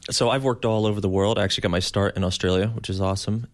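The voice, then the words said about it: American accent. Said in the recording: “you don't have a Chinese accent. You have an American accent.”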